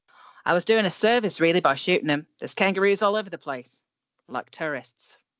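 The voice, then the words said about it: Attempted Australian accent. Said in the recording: “Are you going to do an Australian accent? ... I'm going to try.”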